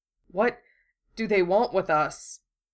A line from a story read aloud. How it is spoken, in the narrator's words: Wu Fei asked, out loud, letting his voice quiver